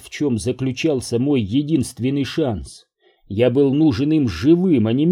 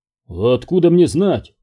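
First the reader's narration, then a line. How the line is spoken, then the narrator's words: Grumbled. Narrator (Russian): пробурчал другой врач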